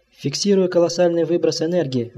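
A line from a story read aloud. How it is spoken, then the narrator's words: Exclaimed. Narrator (Russian): воскликнул наблюдатель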